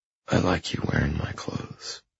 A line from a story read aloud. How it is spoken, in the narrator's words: I whisper